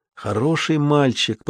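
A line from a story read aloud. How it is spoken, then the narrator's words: Whisper. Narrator (Russian): прошептал Зуга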